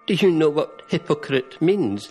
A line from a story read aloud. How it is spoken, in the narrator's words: laughed, in spite of herself